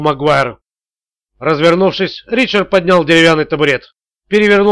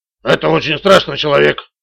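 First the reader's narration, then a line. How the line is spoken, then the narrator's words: Muttered. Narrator (Russian): пробормотал Магуайр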